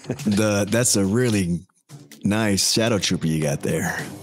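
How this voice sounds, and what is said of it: Sultry, seductive voice. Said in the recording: “Give a little sexy voice”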